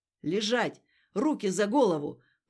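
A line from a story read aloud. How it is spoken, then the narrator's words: Thundering commanding voice. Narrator (Russian): прогремел незнакомый командный голос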